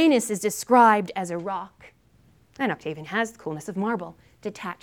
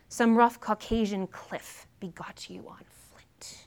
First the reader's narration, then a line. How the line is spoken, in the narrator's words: Dido, leveling accusations against her erstwhile lover, cries out